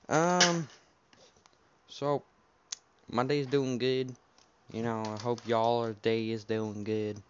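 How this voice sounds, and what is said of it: Put-on accent. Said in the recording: “I don't know why I'm doing an accent”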